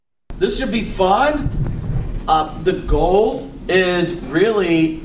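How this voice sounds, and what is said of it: Yelling, loud voice. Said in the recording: “Why are you yelling? ... Because I'm away from the microphone. ... Screaming.”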